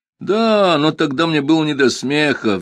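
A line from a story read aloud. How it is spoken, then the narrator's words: Sighing. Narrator (Russian): вздохнул Номинорих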